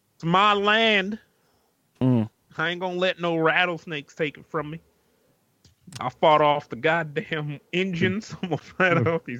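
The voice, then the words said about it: Put-on wandering American regional accent. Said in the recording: “California accent if I've ever heard one ... it went from New Orleans to South, and then tried to go back over to California, and it just didn't work out”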